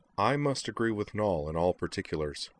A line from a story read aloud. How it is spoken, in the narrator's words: Dorothy said dryly